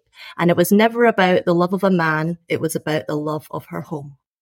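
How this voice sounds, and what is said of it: Scottish accent. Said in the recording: “I'm a Scottish-born Chinese background author, as I'm sure you can figure out from this accent. ... It's a wonderful accent”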